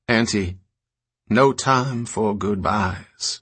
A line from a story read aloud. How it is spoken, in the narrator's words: the old woman intoned